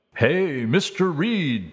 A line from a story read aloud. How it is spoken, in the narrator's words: boomed from behind the counter